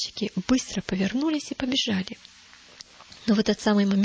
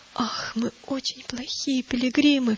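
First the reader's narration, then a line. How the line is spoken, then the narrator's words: Sobbing. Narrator (Russian): всхлипнул христианин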